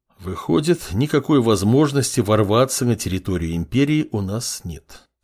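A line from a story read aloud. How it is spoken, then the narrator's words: Calm tone. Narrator (Russian): спокойным тоном произнес повелитель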